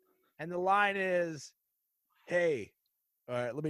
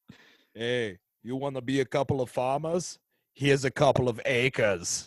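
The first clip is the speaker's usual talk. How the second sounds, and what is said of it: Imitates another person's voice. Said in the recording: “let me do it in my Arnold voice.”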